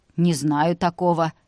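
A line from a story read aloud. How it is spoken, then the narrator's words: Dry reply. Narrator (Russian): сухо ответила Зоя Семеновна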